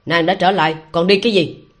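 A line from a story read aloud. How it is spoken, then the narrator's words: Tense, angry. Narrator (Vietnamese): Trong lòng La Vĩnh Sanh căng thẳng, tức giận nói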